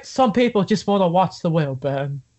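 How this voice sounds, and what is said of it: Poor impression of a movie character. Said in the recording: “That was a terrible impression”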